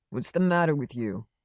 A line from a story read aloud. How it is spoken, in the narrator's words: asked